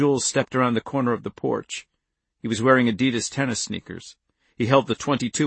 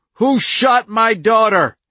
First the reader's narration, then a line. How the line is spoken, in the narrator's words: Andy screamed